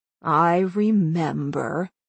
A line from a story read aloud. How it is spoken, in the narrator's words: Dorothy grumbled begrudgingly